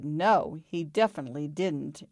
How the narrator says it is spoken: he growled in Petey's face

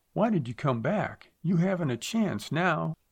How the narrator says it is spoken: she cried

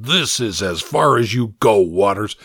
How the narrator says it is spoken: growled

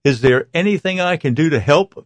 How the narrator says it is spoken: Victoria asks Claire

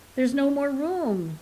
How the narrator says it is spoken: they cried

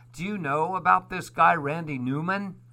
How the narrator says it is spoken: Laughs

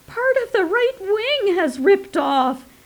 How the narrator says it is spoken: the weasel woman shrieked

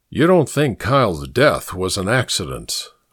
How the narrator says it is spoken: murmured

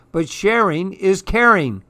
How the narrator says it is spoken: cried Clark

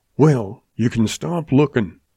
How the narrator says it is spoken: snapped the boy

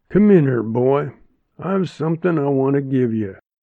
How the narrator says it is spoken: he said in his gruff voice

